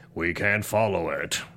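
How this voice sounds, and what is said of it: Optimus Prime voice impression. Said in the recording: “my Optimus Prime impression ... That was really nice. ... that voice fits you more than Optimus's voice fits him.”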